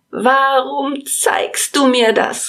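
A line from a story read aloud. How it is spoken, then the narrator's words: Calling out. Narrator (German): rief er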